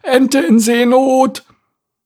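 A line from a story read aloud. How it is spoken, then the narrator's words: Called out. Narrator (German): rief sie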